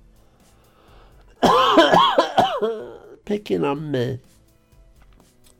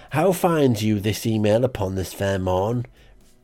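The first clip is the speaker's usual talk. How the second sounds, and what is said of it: Put-on Cornish accent. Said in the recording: “oh, I've gone Cornish for some reason, if that's the right accent.”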